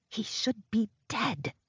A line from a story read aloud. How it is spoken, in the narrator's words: she hisses